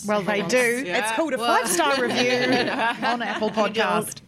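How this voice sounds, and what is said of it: British accent. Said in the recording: “the fake British accent ... it's not fake. I've just lived here for a while.”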